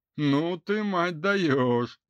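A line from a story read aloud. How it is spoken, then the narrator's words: Loud laughing. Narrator (Russian): захохотал Шамиль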